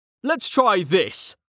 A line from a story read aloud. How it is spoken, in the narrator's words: Mlem shouted